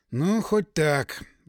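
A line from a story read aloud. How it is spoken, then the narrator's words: Sigh. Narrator (Russian): вздохнул я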